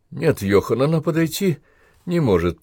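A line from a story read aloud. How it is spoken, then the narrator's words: Uncertain. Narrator (Russian): произнес как-то неуверенно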